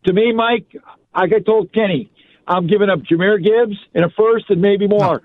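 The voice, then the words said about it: Hoarse, strained voice. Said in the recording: “Excuse me, my voice is out.”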